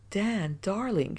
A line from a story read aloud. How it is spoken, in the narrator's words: moaned